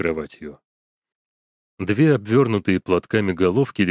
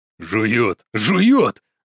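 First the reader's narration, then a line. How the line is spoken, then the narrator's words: Shouting. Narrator (Russian): закричал Лунин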